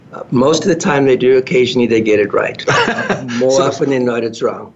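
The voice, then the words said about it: South African accent. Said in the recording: “when people hear your accent ... I'm actually from South Africa”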